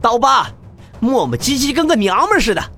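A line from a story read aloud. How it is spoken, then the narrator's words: Shouted. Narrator (Chinese): 领头之人更是喊道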